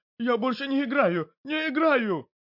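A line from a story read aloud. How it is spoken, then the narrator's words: Frightened, nearly sobbing. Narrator (Russian): Толстяк был напуган и почти что разрыдался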